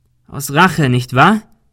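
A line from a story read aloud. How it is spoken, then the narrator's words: Called out. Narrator (German): rief Ben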